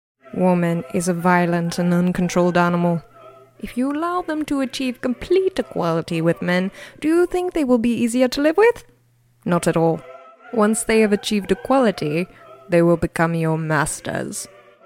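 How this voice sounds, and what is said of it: Theatrical put-on British accent. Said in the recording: “I know Cato the Elder didn't have a British accent, but I couldn't resist sprinkling a little bit of theatrics in there.”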